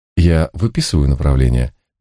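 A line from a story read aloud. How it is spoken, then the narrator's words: Gentle question. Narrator (Russian): мягко спросил Алихман Иезуитович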